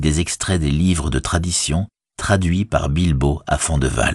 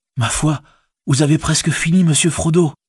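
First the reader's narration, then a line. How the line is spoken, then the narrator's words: Exclaiming. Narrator (French): s'exclama Sam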